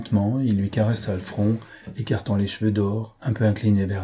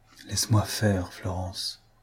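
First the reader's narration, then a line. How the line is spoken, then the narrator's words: Quiet repetition. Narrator (French): répéta-t-il tout bas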